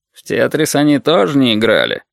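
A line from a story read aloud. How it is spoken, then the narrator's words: Grumbled. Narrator (Russian): проворчал Толик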